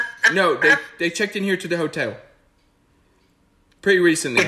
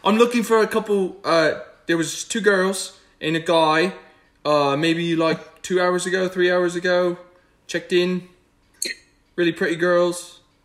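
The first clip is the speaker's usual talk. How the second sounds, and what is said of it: Character accent for Wing. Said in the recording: “Use Wing's accent.”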